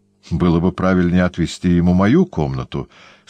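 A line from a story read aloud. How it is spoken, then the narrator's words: Calm. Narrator (Russian): спокойно сказал Иезуит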